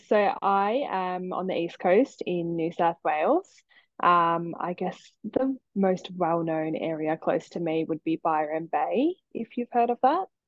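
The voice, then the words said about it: Australian accent. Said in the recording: “calling in from Australia with your amazing accent”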